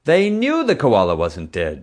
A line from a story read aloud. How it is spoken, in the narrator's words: Tracy roared